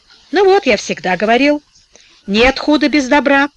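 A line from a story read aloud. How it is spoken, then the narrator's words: Old man's wry snort. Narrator (Russian): хмыкнул старик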